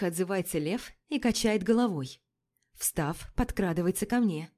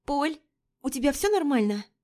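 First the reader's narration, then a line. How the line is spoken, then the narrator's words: Anxious question. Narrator (Russian): Взволнованно спрашивает Римма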